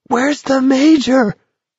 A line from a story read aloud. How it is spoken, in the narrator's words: someone screamed